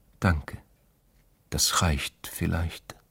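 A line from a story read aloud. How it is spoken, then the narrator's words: Whispering. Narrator (German): hatte er geflüstert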